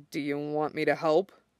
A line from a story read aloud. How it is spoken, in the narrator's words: Shota mumbles